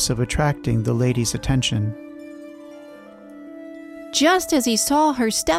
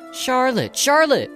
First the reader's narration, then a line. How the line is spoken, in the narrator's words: shouted